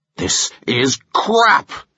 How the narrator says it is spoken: he thundered

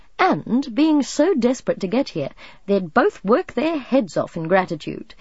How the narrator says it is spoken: he laughed

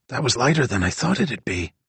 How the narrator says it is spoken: Dino whispered

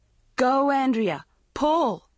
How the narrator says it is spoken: Maggie started shouting

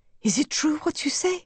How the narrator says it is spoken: asked eagerly

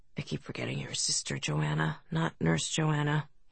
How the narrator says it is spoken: he muttered

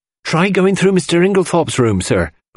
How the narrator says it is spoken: cried Dorcas

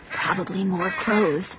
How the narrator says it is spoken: Luke muttered

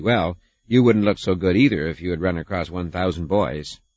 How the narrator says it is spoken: this ant says crossly

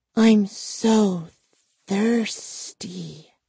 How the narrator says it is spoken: Gwendolyn hissed

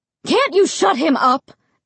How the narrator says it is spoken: Mom screamed

